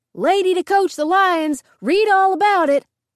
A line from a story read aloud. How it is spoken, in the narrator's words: The roadside newsie, who shouted